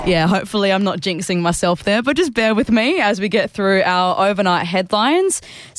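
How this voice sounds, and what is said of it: Voice strained by sore throat. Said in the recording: “I've got a bit of a sore throat”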